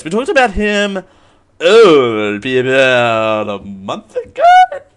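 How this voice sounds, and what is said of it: Voice suddenly goes high-pitched. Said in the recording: “my voice went so high”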